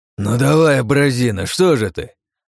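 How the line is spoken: Growled. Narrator (Russian): прорычал

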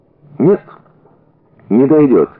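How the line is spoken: Calm. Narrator (Russian): спокойно сказал Щербаков

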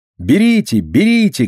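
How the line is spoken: Shouted. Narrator (Russian): кричала

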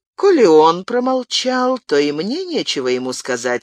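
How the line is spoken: Dry reply. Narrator (Russian): сухо ответил лорд Уэнтворс

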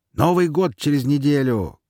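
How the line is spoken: Shout. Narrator (Russian): крикнул

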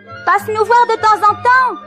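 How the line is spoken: Three bears shouting. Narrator (French): cria les trois ours à Boucle d'Or

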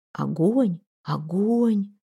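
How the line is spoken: Crowd whispering. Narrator (Russian): зашептали вокруг

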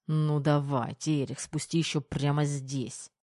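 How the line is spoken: Gloomy muttering through teeth. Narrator (Russian): Хмуро процедил Кир под нос

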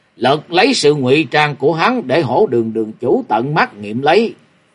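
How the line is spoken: Loud angry. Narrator (Vietnamese): Long đường đường chủ lớn tiếng giận dữ nói

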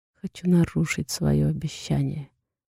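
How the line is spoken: Barely audible whisper. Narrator (Russian): шепчет еле слышно

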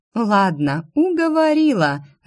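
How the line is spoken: Laughing. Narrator (Russian): рассмеялась Инесса

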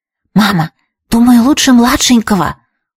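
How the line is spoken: Whisper. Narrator (Russian): услышала я шепот Трис

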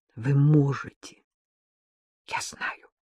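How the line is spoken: Quiet, deeply convinced. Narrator (Russian): тихо, но с глубокой убежденностью в голосе повторила Маша

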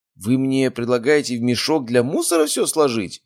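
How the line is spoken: Squeaky disgusted voice. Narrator (Russian): пропищал, сморщив нос

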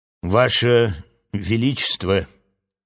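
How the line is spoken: Solemn address. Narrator (Russian): торжественно обратилась она к Ментаха

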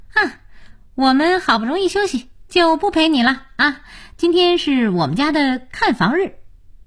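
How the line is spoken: Smiling. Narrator (Chinese): 才智笑眯眯地说

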